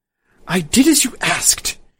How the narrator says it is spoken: she hissed

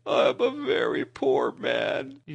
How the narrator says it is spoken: he sobbed

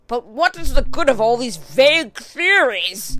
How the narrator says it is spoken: cried the banker impatiently

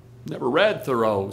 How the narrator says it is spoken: said Carl

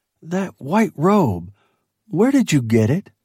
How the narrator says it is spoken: He sort of wheezed

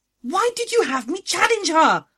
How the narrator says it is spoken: shrieked

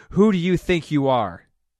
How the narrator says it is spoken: A final surge of fury shook her, and she roared

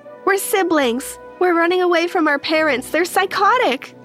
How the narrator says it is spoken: I cried

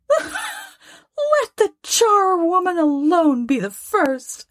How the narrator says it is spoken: cried she who had entered first

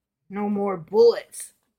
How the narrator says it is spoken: grunted the bandit

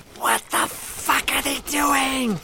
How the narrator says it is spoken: He hisses

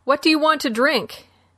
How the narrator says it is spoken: Boone, who leaned forward and shouted

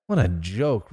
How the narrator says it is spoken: Ronnie muttered

